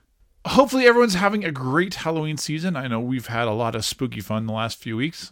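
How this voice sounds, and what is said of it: Slightly fried, hoarse voice. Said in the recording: “my voice is a little fried today because I've been doing so much evil talking to the little naughty children”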